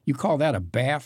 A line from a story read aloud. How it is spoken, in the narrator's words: Maria asked him sharply